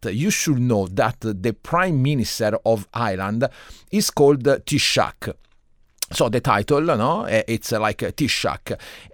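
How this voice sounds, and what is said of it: Italian accent speaking English. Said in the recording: “my accent is not from Ireland. I'm Italian”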